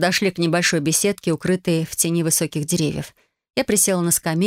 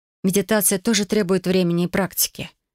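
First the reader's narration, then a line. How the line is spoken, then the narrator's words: Soft encouraging. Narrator (Russian): мягко сказала я, стараясь приободрить ее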